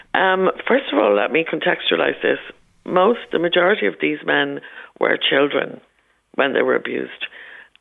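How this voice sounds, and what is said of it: Croaky voice. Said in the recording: “my croaky voice. I have a cold. ... despite my croakiness”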